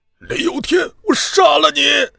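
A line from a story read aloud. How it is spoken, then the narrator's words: Grief-stricken angry roar. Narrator (Chinese): 和尚悲愤的吼声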